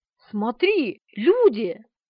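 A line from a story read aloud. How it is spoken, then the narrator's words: Joyful exclamation. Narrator (Russian): радостно воскликнула Полина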